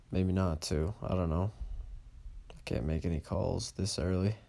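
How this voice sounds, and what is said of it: Very slow, quiet speech. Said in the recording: “I'm talking very slow and pretty quiet”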